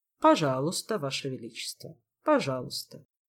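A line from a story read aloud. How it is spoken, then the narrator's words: Court magician sighing. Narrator (Russian): вздохнул придворный маг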